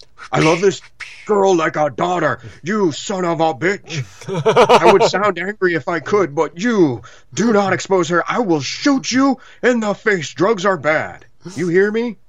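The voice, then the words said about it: Overly emotive imitation of another person. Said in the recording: “He doesn't sound like that. ... he sounds more wooden. ... a good, you know, attempt at an impersonation. ... that was too emotive. For Charles Bronson.”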